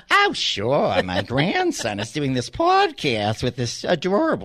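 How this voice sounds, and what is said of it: Elderly grandmother voice impression. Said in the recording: “That's actually my grandmother, my Nana, that I'm doing there ... doing an impression of my grandmother”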